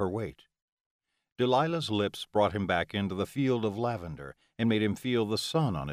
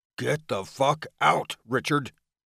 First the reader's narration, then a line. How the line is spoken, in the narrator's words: he growled low and dark